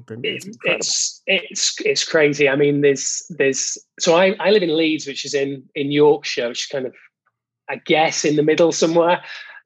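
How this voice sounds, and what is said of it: English accent. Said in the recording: “Your accent is much easier to understand, but you know how England is”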